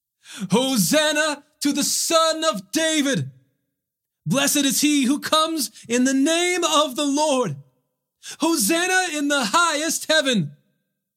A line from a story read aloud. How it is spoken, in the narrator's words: the crowds who went ahead of him and those who followed shouted